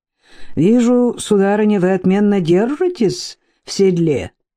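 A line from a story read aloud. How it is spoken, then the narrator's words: Cheerful. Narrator (Russian): весело сказал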